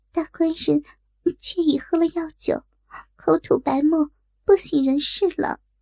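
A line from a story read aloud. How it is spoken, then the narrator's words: Panting trembling woman. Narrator (Chinese): 锦儿这才喘着娇气，颤抖说道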